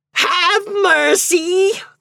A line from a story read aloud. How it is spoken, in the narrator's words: They screamed